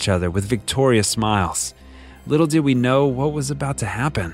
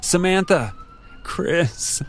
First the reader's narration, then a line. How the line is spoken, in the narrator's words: sobbed